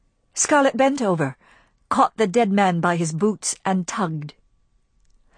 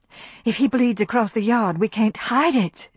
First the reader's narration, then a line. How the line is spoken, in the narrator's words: she gasped